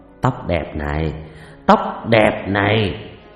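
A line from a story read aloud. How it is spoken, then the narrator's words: Muttering. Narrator (Vietnamese): anh chồng mồm lẩm bẩm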